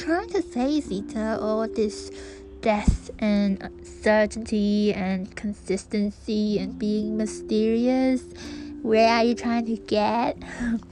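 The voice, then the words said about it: Bad American accent. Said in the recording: “this is my American accent, deal with it, it's bad.”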